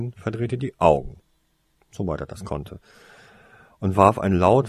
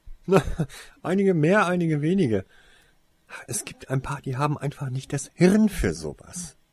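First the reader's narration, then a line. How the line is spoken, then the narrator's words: Scornful laugh. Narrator (German): lachte Alec abfällig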